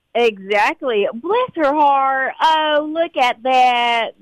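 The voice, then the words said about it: Put-on Southern drawl. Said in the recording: “I got my southern drawl down ... you've got that southern drawl down”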